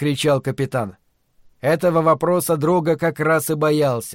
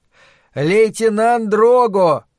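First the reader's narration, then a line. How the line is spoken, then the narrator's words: Loud. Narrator (Russian): громко отрекомендовался Джованни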